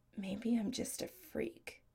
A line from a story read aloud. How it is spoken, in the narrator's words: Adam says softly